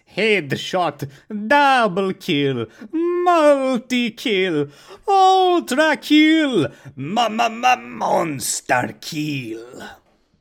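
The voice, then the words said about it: Video game announcer voice. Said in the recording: “Unreal tournament announcer voice.”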